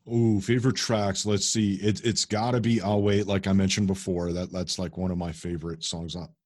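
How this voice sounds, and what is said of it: Chicago accent. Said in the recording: “I'm from Chicago, in case you can't hear it in my accent.”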